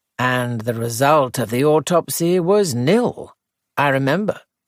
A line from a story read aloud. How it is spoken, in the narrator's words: said Sir Henry gravely